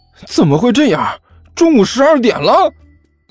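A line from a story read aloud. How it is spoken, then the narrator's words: Miserable wail. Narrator (Chinese): 这货惨叫了一声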